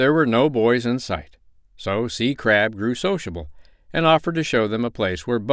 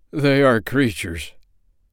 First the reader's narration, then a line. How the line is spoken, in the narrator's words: said the crab with a groan